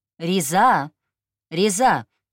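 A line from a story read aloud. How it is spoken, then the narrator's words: Shout. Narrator (Russian): крикнула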